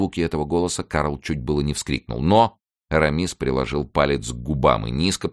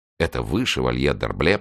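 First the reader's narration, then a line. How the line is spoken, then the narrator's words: Whisper. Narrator (Russian): прошептал Карл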